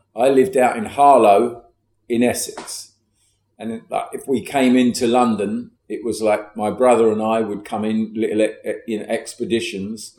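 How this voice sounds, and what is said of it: London accent. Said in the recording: “you talk with a London accent”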